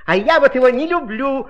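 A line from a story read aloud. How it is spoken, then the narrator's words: Exclamation. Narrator (Russian): воскликнуло слово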